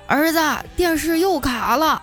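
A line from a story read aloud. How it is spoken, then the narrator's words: Drunken shout. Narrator (Chinese): 他老爸喝醉酒回来躺在沙发上喊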